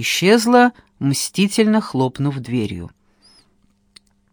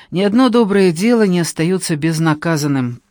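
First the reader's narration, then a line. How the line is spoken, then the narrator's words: Miserable groaning man. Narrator (Russian): простонал мой несчастный родственник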